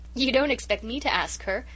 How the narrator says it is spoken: giggled Amy McAllister, the other member of the committee

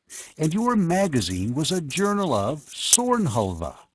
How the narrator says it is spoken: Penrose exclaimed

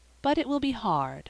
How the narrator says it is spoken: she added with a sigh

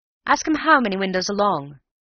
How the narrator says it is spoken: shouted the manager in high excitement

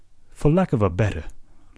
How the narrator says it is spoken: laughed the captain, good-humoredly contemptuous

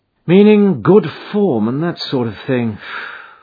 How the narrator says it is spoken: Von Borch sighed as one who had suffered much

